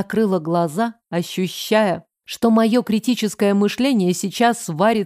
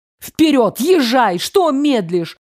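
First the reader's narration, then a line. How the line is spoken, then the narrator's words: Shouted. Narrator (Russian): кричала Ксю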